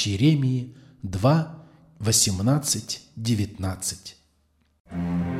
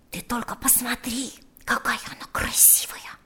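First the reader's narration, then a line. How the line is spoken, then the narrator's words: Tender whisper. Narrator (Russian): шептал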